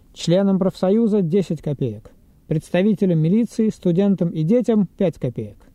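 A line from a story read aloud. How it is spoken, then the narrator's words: Firm shout. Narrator (Russian): закричал довольно твердым голосом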